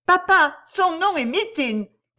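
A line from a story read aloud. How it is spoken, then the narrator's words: Shouting. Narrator (French): cria Miss Denel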